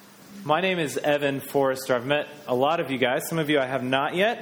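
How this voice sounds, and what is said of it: American accent. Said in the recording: “We are from America, and most people can figure that out pretty quick because of our accent ... with an American accent.”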